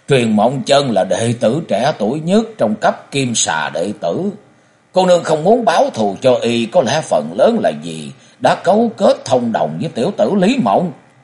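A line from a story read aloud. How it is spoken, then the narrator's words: Loud laughing. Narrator (Vietnamese): Cổ Du ha hả cười lớn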